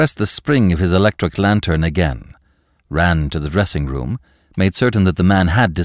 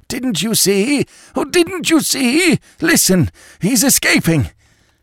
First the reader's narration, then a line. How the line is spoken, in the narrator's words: choked out